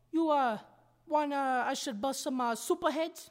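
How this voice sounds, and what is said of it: Phony Bronx accent. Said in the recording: “lose the phony accent. Nobody believes you're from the Bronx.”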